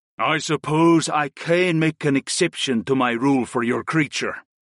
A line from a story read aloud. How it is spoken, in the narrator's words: he grunted